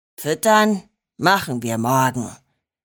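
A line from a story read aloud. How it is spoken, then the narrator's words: Growl. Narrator (German): knurrte Bronco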